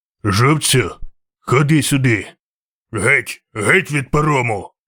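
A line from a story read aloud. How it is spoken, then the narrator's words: Growling. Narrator (Ukrainian): гарчав вершник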